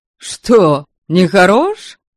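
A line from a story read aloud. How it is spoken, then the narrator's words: Snorting. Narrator (Russian): хмыкнул Ваята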